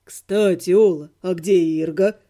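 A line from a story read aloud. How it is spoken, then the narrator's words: Purring inquiry. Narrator (Russian): Мурлыкающим тоном поинтересовался Живка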